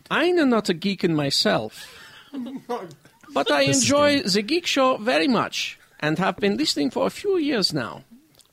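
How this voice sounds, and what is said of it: Put-on Northern German accent. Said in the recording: “I love how you're doing Northern German. I mean, you actually isolated a regional accent. ... It's amazing.”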